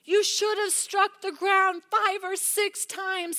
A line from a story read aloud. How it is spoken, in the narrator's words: he exclaimed